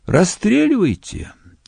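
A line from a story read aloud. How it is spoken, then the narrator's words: Sad. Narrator (Russian): грустно отвечал Энгельгард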